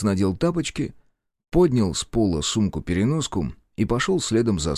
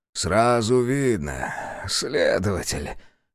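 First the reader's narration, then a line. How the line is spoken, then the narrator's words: Father's hoarse chuckle. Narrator (Russian): хрипло усмехнулся отец и кашлянул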